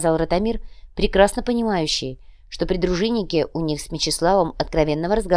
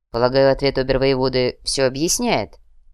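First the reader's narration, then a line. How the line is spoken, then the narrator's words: Calm. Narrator (Russian): спокойно произнес Мечислав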